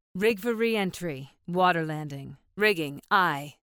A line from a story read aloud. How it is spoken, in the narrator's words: said the Lego